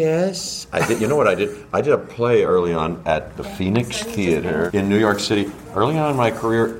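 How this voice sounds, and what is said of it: Usual voice. Nothing is said of it.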